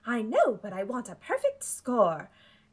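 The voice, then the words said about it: Sing-song old British lady voice. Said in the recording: “such a good Amy impression ... you really nailed the, like, ups and downs and, like, the weird old lady British thing ... a little bit of a Luna vibe in there, too”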